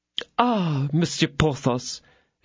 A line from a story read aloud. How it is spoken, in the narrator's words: exclaimed the attorney's wife